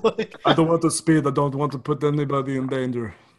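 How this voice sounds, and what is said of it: Imitates another person's voice. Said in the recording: “I'm working on my Dirk impression.”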